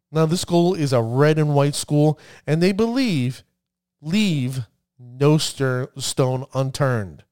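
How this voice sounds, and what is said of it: New Jersey accent. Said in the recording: “my New Jersey accent”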